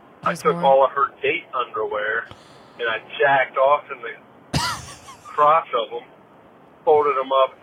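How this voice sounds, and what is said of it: Southern US country accent. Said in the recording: “the country accent is kind of selling it. ... Wait, that was Australian, right? Oh, that was Southern? ... That sounded like Texas.”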